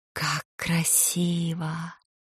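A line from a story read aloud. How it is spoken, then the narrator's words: Admiring whisper, tearful. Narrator (Russian): в восхищенном шепоте голос Флоранс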